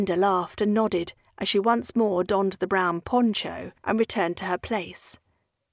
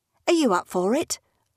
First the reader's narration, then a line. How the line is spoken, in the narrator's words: asked Sue